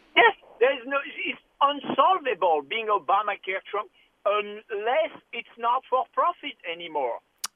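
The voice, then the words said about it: Obviously fake put-on accent. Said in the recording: “that totally fake accent”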